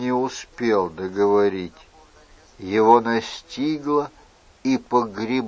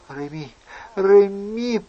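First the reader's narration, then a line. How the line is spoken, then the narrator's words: Moaning. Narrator (Russian): простонала дама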